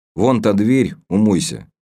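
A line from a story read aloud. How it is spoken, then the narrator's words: Angry, through gritted teeth. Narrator (Russian): зло процедил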